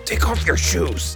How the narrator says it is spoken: he whispered fiercely

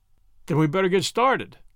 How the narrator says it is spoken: Hebert exclaimed

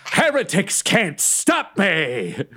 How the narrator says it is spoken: yelling

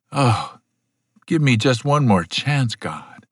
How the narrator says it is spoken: silent, morose meditation, with an occasional groan that sounded very much like

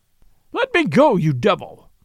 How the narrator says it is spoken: thundered Kalon, struggling like a giant in bonds

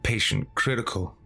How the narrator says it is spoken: I mumbled and hung my head

